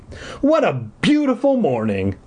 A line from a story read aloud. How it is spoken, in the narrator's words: I exclaimed